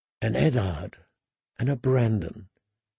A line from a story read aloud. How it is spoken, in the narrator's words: she sighed softly